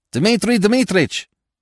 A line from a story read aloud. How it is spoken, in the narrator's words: turned suddenly and shouted